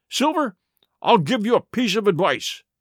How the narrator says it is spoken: he cried

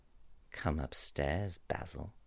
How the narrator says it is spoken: said quietly

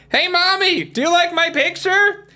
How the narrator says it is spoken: He had to holler because the plane was loud

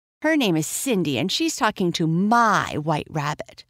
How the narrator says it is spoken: the girl snapped

